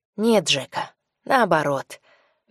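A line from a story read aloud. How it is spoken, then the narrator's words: Soft gentle speech. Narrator (Russian): мягко произнес Йося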